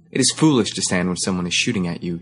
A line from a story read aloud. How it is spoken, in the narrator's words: he said sullenly